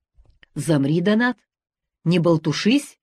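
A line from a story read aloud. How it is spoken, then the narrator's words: Prosecutor's sharp shout. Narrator (Russian): прикрикнул прокурор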